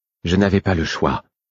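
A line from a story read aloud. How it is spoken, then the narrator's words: Calm voice. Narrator (French): fit-il d'une voix calme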